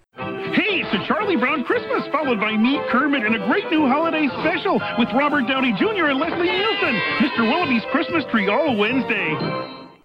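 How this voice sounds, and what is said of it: Kermit the Frog voice impression. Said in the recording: “someone doing a mediocre Kermit impression ... do a Kermit voice”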